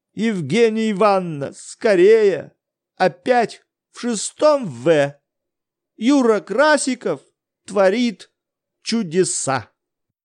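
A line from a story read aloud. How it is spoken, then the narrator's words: Loud frightened exclamation. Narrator (Russian): чей-то испуганный голос громко возгласил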